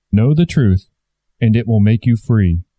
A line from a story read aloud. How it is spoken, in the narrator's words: said the Christ